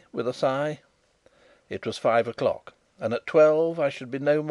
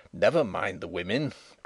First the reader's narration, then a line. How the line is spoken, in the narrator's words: growled Sapt